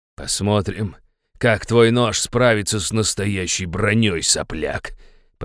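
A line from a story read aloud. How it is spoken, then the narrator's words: Growl. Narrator (Russian): прорычал он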